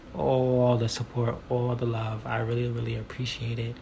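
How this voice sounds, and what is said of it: Soft, hushed, laid-back speaking voice. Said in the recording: “I'm not whispering, I swear. This is just how I'm talking right now because I'm still on like a real chill vibe.”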